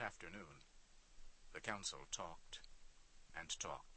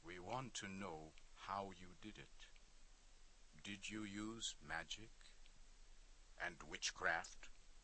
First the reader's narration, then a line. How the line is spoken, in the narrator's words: in a serious voice to Kish, he said